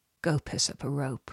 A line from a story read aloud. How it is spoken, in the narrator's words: muttered